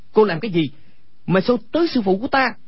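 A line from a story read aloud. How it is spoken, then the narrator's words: Angry shout. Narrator (Vietnamese): Quách Tĩnh tức giận quát lên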